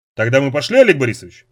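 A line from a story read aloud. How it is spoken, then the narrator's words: Plain. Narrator (Russian): спросил Киркин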